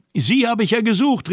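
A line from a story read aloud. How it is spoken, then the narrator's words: Joyful call. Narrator (German): rief freudig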